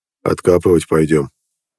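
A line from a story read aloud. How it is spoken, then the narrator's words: Ordinary everyday voice. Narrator (Russian): Жересар обычным будничным голосом сказал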